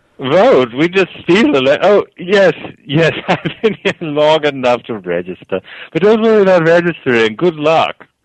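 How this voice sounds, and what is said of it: British accent. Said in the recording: “you sound like you have a little bit of a British accent.”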